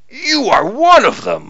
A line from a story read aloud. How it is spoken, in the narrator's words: He shouts